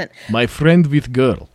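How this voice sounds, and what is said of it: Put-on Russian accent. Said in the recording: “I can't talk with a Russian accent... Oh, there you go.”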